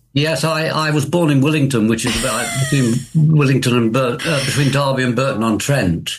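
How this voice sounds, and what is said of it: Derby English accent. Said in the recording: “I recognised your accent. I'm from Derby too. ... you definitely sounded from Derby then”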